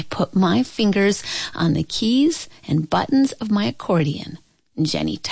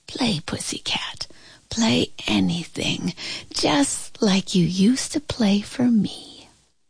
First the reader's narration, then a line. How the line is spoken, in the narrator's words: heard my grandma whisper